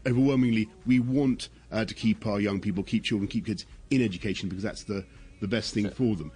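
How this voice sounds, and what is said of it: British English accent. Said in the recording (Spanish): “ese, ese acento tan característico ... Ese British muy dijo, British ... muy British”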